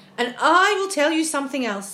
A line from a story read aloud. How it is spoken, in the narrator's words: the centipede said sharply